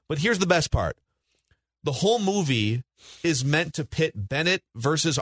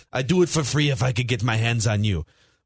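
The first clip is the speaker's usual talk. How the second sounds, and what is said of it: Imitated foreign-accented movie villain. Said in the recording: “he had some other foreign accent, too.”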